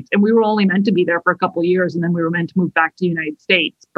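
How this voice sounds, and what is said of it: Mid-Atlantic, non-British accent. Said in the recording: “I have this weird non-British accent ... I call it mid-Atlantic.”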